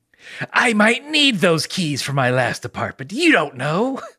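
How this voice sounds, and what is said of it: Impression of the character Frieza. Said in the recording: “my impression of Frieza ... Oh, that's a very good impression”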